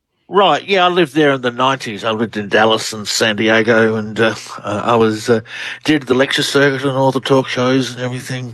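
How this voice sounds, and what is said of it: Australian accent. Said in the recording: “Australian researcher. Love the accent... You have a great one.”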